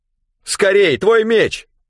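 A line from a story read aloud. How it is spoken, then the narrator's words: Shout. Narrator (Russian): крикнул Рэндом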